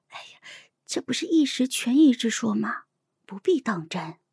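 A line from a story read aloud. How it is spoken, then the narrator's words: Whisper. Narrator (Chinese): 悄声的说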